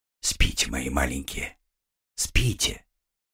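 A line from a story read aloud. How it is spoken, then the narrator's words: Soft tearful lullaby. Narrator (Russian): Она беззвучно заплакала, глотая слезы, и стала тихонько напевать колыбельную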